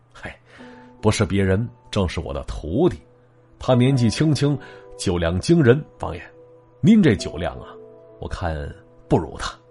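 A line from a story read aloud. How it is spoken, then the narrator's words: Soft gentle voice. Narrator (Chinese): 那叶敬能依然是轻声轻语说了一句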